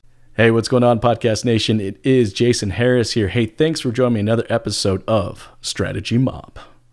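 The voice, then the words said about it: Radio announcer voice. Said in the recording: “in my announcer type voice... my radio announcer voice”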